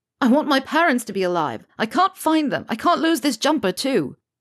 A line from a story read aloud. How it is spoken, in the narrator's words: Harry throws an enormous wobbly that ends in him shouting